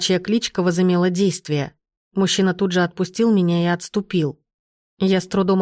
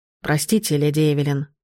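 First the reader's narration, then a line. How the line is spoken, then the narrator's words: Hoarse werewolf voice. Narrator (Russian): хрипло произнес оборотень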